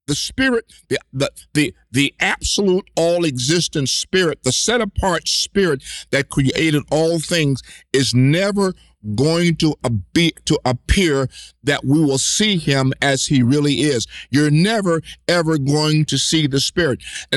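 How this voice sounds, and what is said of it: Raised, loud preaching voice. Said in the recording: “I'm starting to get raise my voice.”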